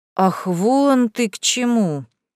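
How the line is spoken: Drawn out, drawling. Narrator (Russian): протянул Тамерлан

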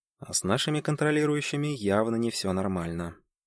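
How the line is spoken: Barely audible. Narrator (Russian): добавил едва слышно

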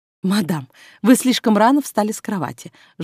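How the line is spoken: Pitiful lamenting. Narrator (Russian): жалостливо причитала

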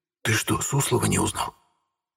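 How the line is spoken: Whispered. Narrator (Russian): в ответ прошептал Эдик

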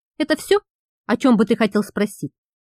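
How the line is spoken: Speaking after long pause. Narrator (Russian): После долгой паузы проговорил Каэс

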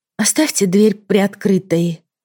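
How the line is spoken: Tired request. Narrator (Russian): устало попросила я

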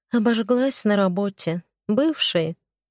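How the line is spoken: Heavy sigh. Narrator (Russian): Тяжко вздохнула я

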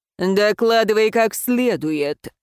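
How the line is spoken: Barking. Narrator (Russian): рявкнул хозяин кабинета

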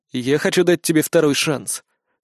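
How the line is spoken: Calm. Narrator (Russian): спокойно произнес он

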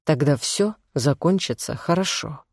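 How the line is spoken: Soft repetition. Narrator (Russian): мягко повторил он

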